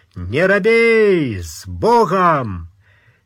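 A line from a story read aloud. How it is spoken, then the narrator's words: Old man's bellow. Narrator (Russian): старый фриц заорал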